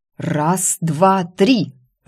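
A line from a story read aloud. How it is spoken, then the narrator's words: Growled. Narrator (Russian): рыкнула я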